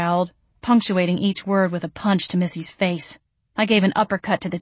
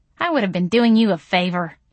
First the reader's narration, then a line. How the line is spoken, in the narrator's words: Missy sneered